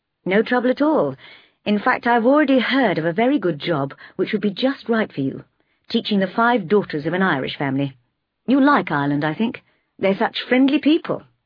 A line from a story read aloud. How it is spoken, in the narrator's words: said cheerfully